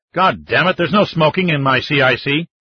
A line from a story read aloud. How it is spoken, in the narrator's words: the captain snarled